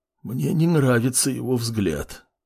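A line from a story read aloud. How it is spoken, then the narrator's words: Hoarse wheeze. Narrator (Russian): просипел мужчина, когда отдышался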